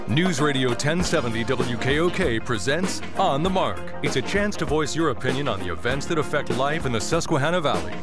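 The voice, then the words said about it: Deep announcer voice. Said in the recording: “Deep Voice Man”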